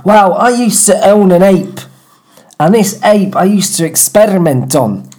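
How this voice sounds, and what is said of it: Put-on Mancunian accent. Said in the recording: “let me get my accent a bit more right ... You're considerably more Mancunian than the last time ... I'm John Cooper Clarke reincarnated, aren't I? Yeah. That's the accent.”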